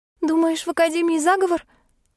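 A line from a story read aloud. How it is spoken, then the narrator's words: Frightened question. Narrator (Russian): испуганно спросила Эви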